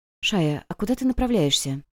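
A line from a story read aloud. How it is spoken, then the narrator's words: Quiet question. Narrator (Russian): спросила Вивин тихонько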